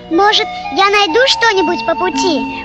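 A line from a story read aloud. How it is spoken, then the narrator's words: Excited squeak. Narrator (Russian): пропищал возбужденный мышонок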